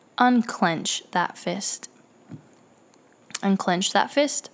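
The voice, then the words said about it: Very calm, steady voice. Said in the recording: “in a very calm voice,”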